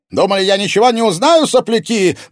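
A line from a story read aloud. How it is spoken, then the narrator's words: Furious yelling old man. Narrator (Russian): брызжа слюной вопил старик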